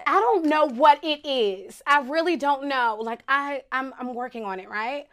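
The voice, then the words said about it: Country Southern American accent. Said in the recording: “you fake have an accent, even though you're from Virginia. I don't really know people from Virginia with a country accent like that.”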